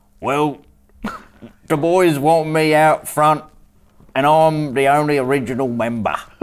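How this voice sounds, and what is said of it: Texan doing bad Northern English accent. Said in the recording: “in a Northern England accent ... is a fantastic mimic, but... He's pretending to be someone who's from Texas doing a bad Northern English accent ... it might sound absolutely shit ass”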